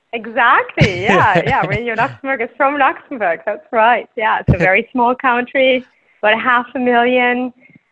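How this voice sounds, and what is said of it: Luxembourgish accent. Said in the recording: “we do speak Luxembourgish ... that's what my accent is”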